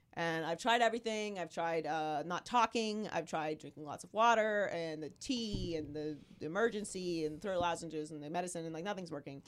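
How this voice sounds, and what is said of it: Hoarse, nearly lost voice. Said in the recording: “I've completely lost my voice. This is the best that it's sounded in the last 3 days ... So this is what I sound like now. I sound like this ... And I keep hacking.”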